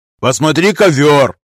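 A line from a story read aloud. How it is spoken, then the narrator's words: Barked. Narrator (Russian): рявкнул капитан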